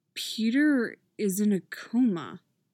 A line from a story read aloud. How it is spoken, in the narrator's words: he says slowly